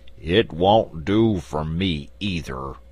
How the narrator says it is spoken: grumbled the Sawhorse

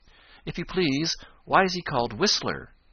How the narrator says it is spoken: asked Johnny Chuck eagerly

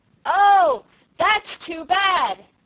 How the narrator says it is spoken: shouted poor Felicity

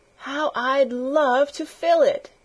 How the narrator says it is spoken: exclaimed

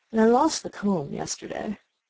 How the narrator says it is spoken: the Queen said with a sigh

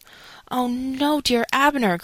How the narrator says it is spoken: cried Mary

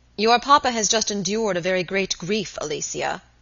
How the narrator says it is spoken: the young man said gravely

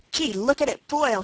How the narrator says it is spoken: he cried

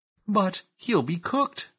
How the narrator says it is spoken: cried Phyllis, open-eyed

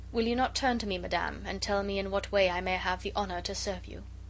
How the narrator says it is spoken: restrained himself with a tremendous effort of will, and said coldly, though still very gently

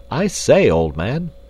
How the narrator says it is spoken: cried Clayton

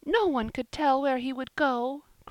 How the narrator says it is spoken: cried Polly, wringing her hands

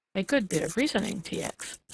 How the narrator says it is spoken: said the other calmly

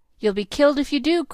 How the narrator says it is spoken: cried Ned, frightened out of his wits

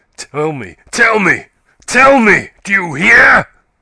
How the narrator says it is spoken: he cried

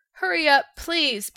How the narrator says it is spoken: begged the Tin Woodman

